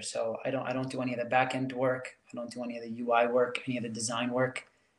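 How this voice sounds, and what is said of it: Mild New York accent. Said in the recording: “I sound like a New Yorker, huh? ... It's, yeah, a little bit. ... It's the R's”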